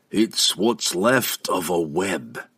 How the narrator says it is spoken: the Dwarf King answered grimly

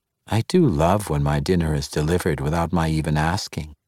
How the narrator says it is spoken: Inkeri Margaster purred

